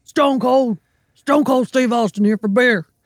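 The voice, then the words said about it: Imitates another person's voice. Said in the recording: “that's a pretty good impression ... It's pretty good.”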